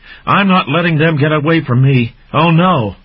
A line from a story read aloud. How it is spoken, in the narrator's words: shouting